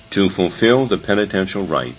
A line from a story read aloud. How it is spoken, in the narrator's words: Jesus replies calmly